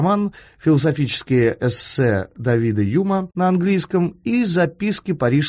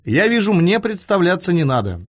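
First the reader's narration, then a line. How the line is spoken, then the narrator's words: Cheerful. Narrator (Russian): весело сказал гость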